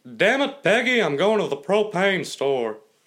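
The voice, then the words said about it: Impression of cartoon character Hank Hill. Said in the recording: “Hank Hill, I do, like, very good.”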